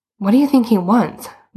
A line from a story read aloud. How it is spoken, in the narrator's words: Boots said nervously